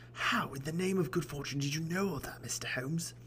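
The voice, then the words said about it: Put-on character accent. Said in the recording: “I'm not going to stick with that accent”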